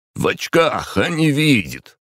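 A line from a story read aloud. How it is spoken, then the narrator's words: Loud indignant foreman. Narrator (Russian): возмущался кто-то особенно громко на русском, скорее всего, их бригадир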